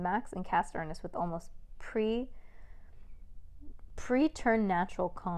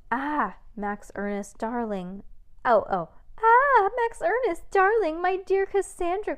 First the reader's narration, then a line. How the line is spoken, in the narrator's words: cried Miss Mavius